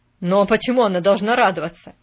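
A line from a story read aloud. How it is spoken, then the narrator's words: Bark. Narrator (Russian): рявкнул Джон Пендлтон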